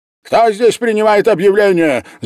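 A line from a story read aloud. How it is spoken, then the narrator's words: Shouting. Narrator (Russian): закричал Ковалев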